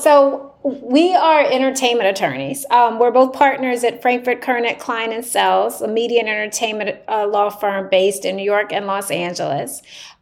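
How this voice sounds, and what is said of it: Southern US accent, Tennessee. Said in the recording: “we're both from the South. I'm from Tennessee ... So my accent is very different than yours.”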